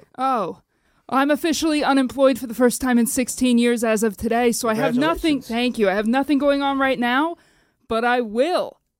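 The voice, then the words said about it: Breathless, out-of-breath speech. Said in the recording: “I'm out of breath. I ran here.”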